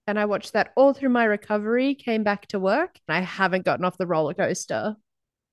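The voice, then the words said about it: Australian accent. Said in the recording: “We're from Melbourne, Australia, as you can tell by the silly accents.”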